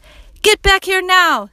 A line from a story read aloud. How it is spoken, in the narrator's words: screamed someone